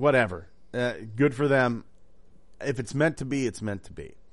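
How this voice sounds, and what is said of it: Usual voice. Nothing is said of it.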